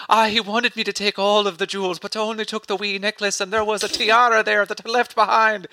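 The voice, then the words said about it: Put-on Irish accent. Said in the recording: “You're really proud of your Irish accent ... it's a rage accent at this point”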